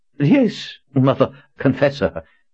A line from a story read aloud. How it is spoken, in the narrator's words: stammered